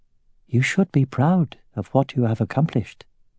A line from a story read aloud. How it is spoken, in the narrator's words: murmured